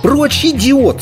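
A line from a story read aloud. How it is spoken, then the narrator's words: Furious shriek. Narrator (Russian): снова взвизгнула Йеннифер, все еще пытаясь выцарапать Геральту глаза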